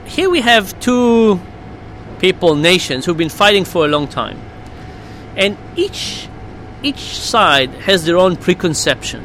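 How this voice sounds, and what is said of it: Israeli accent. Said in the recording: “I'm Israeli, of course, by my accent, you can tell.”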